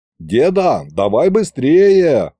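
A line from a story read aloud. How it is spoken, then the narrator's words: Loud call. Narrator (Russian): громко сказал я им вслед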